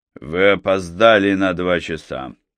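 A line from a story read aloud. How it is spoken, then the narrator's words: Icy tone. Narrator (Russian): ледяным тоном произнес сэр Уильям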